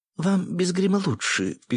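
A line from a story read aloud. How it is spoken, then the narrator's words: Tiny girl's squeak. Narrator (Russian): пискнула самая мелкая из маленьких блондинок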